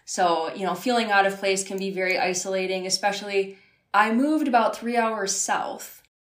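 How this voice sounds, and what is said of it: Accent people mistake for Canadian. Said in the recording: “everybody thought I was from Canada ... I can imagine from the accent for sure ... you don't even sound like everybody else”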